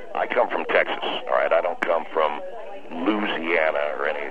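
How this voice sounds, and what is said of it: Southern American accent. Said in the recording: “you sound like you have a southern accent, too”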